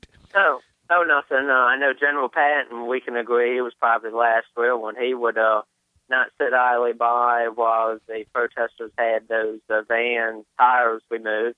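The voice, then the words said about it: Strong Southern American accent. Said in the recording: “If your accent is any indication of what we can expect up there, that's some strong stuff. ... Sounds like you're from Alabama.”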